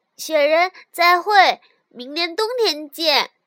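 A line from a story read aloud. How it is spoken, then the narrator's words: Calling out loudly. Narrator (Chinese): 小鼹鼠 回过头去大声喊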